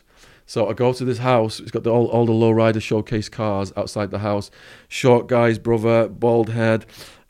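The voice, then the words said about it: English accent. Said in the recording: “here's my English accent. He's like, damn, you talk funny. I guess you are from England.”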